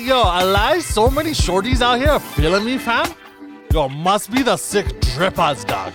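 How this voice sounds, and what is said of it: Mock Toronto patois-style accent. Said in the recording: “this Jamaican leprechaun accent y'all is still in love with ... patois slang, UK slang ... like nails on a chalkboard”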